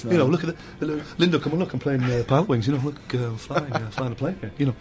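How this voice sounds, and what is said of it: Imitates another person's voice. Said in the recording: “That's a good impression. If I didn't have a sore throat, you would be going, that is a wicked impression.”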